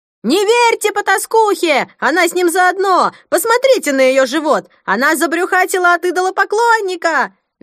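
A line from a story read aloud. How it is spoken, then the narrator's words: Shrill echoing female scream. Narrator (Russian): Визгливый женский голос разнесся под сводами зала, отозвавшись многократным эхом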